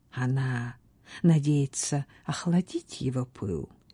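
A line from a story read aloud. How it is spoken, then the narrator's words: Quiet. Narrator (Russian): тихо сказала Фиона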